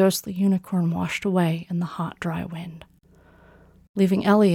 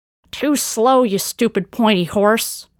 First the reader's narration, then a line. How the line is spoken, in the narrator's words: Karun screeched